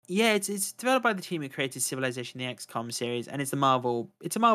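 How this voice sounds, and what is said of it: Usual voice. Nothing is said of it.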